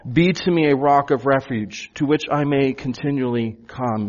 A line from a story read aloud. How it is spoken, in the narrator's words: He cries out